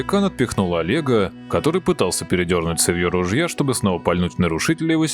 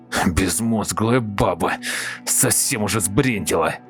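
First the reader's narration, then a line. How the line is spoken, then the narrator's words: Muttering while walking. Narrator (Russian): бормотал он на ходу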